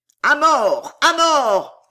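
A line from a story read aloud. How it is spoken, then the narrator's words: Hoarse crowd roaring. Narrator (French): hurlait le rauque rugissement de la foule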